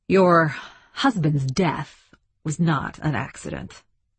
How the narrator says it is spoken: said Langsmith

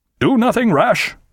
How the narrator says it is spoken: cried Aubrey

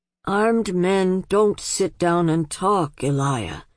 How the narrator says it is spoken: said old Leon wearily

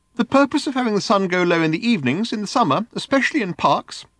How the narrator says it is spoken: said the voice earnestly

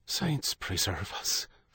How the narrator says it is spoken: Father Michael breathed

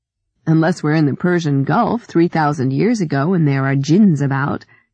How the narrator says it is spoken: Ellie laughed

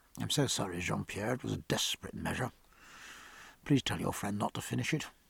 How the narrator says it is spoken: Jack said quietly to his neighbour

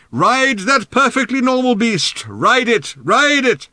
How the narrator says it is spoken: Ford shouted in Arthur's ear

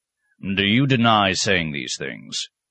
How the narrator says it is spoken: Arcos growled

